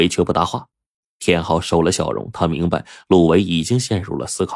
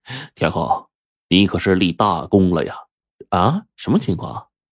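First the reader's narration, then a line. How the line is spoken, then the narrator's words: Smiling. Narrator (Chinese): 陆伟的这个嘴角就露出了笑容，说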